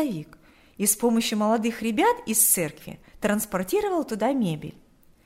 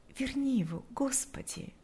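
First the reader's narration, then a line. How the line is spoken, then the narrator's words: Whispered. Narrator (Russian): шептала она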